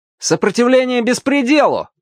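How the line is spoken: Loud reply. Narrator (Russian): также громко ответил рыжий Артур

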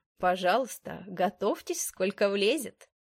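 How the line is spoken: Mocking. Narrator (Russian): насмешливо ответил он

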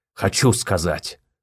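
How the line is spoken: Growling. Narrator (Russian): рыкнул Рельгор

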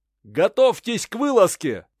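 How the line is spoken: Shouting. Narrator (Russian): прокричал ставший первым воеводой Мизенский

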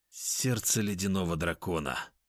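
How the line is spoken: Mumbling while eating. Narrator (Russian): пробормотал съедая вкусняшку

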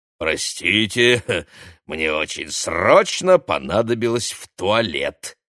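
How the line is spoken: Nasty giggling explanation. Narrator (Russian): противно хихикнув, объяснил бородач

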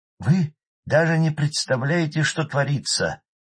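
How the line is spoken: Emotional exclamation. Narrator (Russian): эмоционально воскликнул Масолов

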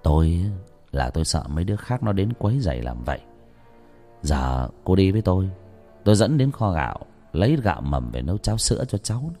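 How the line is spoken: Soft lustful voice. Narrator (Vietnamese): Động tính dục trong người, ông nói với người đàn bà, giọng lại trở nên nhỏ nhẹ

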